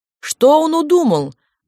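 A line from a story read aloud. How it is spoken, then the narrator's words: Exclamation. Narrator (Russian): воскликнула тетушка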